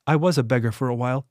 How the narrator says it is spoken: Henley said

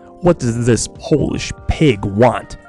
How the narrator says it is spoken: snarled

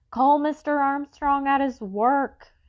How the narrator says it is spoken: she yelled at the policeman

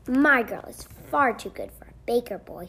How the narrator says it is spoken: scoffed

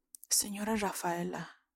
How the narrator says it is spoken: Bromelia whispers

